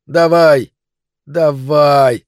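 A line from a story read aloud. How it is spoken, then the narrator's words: Shouted again. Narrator (Russian): крикнул он еще раз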